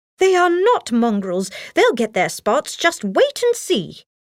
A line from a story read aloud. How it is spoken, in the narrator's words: Nanny exclaimed